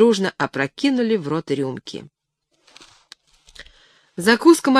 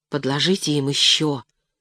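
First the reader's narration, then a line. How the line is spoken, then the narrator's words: Whispered plea. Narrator (Russian): шепотом просила Леночка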